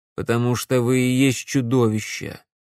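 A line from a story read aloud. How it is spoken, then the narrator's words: Calm. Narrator (Russian): спокойно сказал Макс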